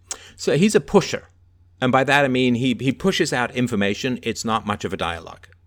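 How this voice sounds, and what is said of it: Mixed Irish, English, South African accent. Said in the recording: “My accent is a combination, a little bit of Irish, English, a little bit of South African, and theater school.”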